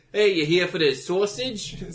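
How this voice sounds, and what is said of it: Put-on Chicago accent. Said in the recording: “my Chicago accent's not great”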